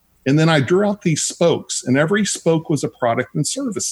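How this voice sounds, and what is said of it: Texas accent. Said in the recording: “Texas accent.”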